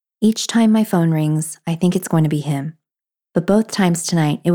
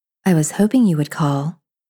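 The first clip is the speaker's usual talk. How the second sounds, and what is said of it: Sultry voice. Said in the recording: “in my sultry voice”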